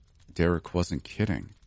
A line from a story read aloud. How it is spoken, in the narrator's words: I mumbled under my breath